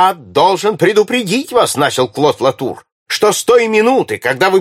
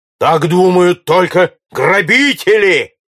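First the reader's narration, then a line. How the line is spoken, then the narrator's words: Barked. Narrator (Russian): гаркнул Джон Хордль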